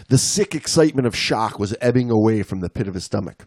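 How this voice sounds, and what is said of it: Put-on Australian accent, inconsistent. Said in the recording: “You reading this whole story with your Australian accent ... Sometimes I feel like my accent's going in and out of ... Kind of is, but I think you're doing a bang up job, mate.”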